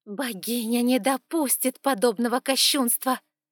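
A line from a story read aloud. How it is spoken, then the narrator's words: Snakelike hiss, priestess. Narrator (Russian): змеёй зашипела верховная жрица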